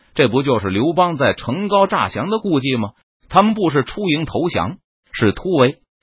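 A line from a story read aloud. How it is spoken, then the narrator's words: Shouting. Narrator (Chinese): 明军军官大声呼喊着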